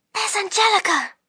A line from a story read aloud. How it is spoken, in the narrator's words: Lyra whispered